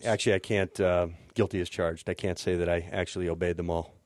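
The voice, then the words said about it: Out of breath. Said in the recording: “A little out of breath. I ran the whole way.”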